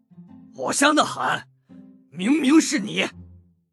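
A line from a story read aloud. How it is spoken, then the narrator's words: Shouting roar. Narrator (Chinese): 立马大吼了起来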